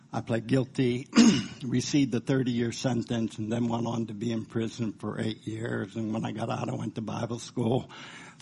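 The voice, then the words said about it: Slightly hoarse voice. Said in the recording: “I'm getting a little hoarse.”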